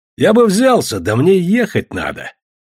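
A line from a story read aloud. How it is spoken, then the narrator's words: Cheerful reply. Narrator (Russian): весело ответил Бердышев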